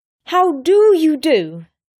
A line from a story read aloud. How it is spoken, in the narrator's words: She said loudly